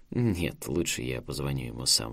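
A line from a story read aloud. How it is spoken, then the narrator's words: Sighing. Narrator (Russian): вздохнул Саймон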